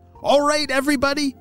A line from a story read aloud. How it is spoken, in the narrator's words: shouted Apollo